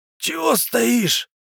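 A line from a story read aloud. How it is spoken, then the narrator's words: Pained old man's rasp. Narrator (Russian): прохрипел дед в муках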